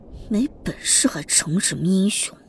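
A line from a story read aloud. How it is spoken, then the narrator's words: Uneasy muttering. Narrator (Chinese): 乔云竟被他的目光刺得有些心惊肉跳，嘀咕道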